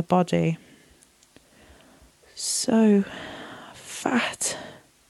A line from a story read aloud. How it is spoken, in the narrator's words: Lana moaned